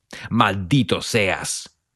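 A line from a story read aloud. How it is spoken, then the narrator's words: Man bellowing. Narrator (Spanish): bramó otro hombre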